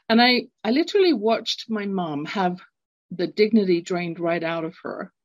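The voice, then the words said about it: British English accent. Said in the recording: “growing up, London, England. You can tell from my accent, I'm not born in North America.”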